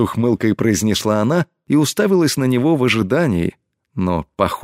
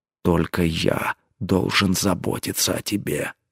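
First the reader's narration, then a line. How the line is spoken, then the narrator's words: Jealous growl. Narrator (Russian): съедаемый ревностью рыкнул он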